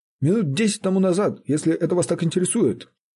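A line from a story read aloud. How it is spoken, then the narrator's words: Offended reply. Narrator (Russian): отвечал слуга обиженным тоном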